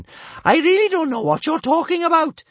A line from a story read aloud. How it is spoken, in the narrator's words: she bellowed